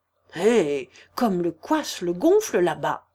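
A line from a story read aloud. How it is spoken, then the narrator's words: Angry grumble. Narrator (French): grognait Zacar en colère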